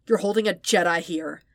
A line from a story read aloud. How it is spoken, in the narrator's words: Anakin snarled